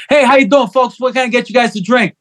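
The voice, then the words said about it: Put-on New York accent. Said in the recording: “I'll put on a New York accent, even though I'm not even from fucking New York”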